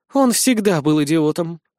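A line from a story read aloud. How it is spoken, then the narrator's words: Sincere sighing girl. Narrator (Russian): искренне вздохнула девушка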